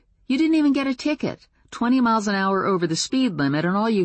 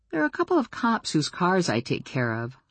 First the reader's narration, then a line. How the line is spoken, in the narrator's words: I murmured